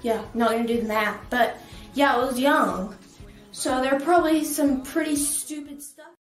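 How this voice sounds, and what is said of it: Southern US accent. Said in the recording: “the Southern accent, because that's where she's from, somewhere in the South. My guess is Texas or a state near there”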